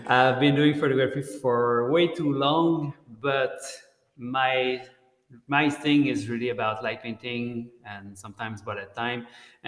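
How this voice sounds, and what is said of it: Strong French accent in English. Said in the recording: “I speak French. I have that strong accent when I speak English.”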